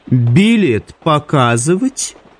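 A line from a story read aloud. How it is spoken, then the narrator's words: Mocking witch's question. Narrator (Russian): насмешливо осведомилась ведьма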